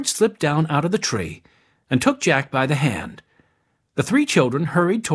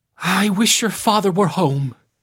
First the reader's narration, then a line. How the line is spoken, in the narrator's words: wailed